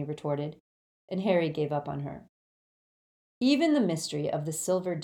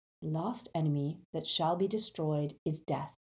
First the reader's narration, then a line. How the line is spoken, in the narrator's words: Harry quoted calmly